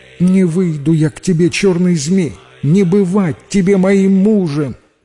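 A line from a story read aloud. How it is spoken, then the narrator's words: Frightened but brave shout. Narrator (Russian): Страшно было Зухре, но набралась она мужества и крикнула змею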